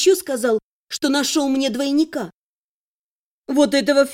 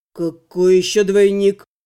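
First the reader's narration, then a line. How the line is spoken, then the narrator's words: Hoarse young man's question. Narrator (Russian): Сипло переспросил юноша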